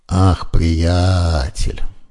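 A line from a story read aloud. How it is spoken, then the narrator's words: Mocking drawl. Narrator (Russian): насмешливо протянула медсестра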